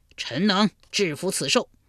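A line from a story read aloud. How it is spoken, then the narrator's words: Loud. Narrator (Chinese): 魏抽大声说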